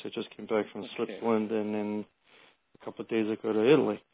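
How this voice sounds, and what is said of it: Strained, fading voice. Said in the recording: “I'm just jet-lagged right now. That's where I'm rapidly losing my voice.”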